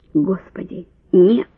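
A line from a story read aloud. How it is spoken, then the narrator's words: Hoarse wheeze. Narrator (Russian): прохрипел он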